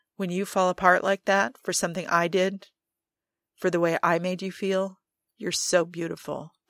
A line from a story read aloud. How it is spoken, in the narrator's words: Joe says